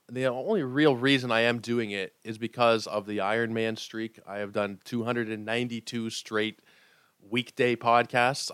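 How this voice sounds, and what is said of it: Sick-sounding voice. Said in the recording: “you can probably hear it in my voice. I am quite sick today.”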